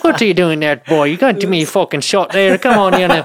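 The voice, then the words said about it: Exaggerated put-on Irish accent. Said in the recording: “I was going straight Irish accent all fucking night”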